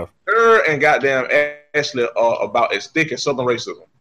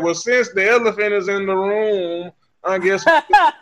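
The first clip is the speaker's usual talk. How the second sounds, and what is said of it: Imitates another person's accent. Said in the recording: “imitating the accent. ... I did my best impression.”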